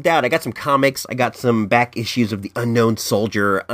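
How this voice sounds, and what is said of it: Scratchy, hoarse voice. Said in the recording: “My throat is on scratch. I can feel it tickle. ... sound different to you guys? It sounds different to me in my ear.”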